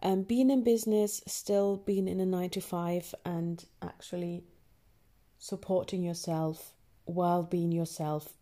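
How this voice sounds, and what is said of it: Northern English and German accent. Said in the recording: “is there a Northern English accent? Yes, there is. Is there a German accent? Yes, there is as well”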